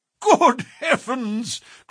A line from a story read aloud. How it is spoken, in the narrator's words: cried the Colonel, laughing